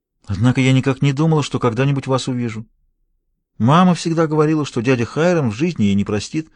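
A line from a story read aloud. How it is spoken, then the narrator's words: Soft, sweet voice. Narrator (Russian): продолжала девушка все тем же негромким милым голосом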